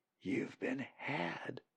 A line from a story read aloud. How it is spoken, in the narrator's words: Molly whispered to Colin